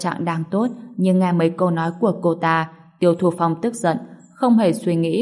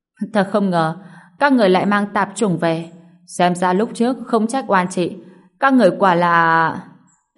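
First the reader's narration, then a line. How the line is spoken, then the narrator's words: Stunned, then loud laugh. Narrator (Vietnamese): Cô ả ngẩn ra, cười lớn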